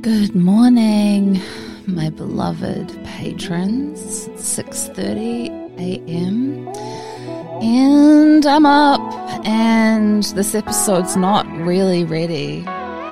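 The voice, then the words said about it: Groggy early-morning voice. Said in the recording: “These are the first words that I've uttered today, as you can hear in my voice.”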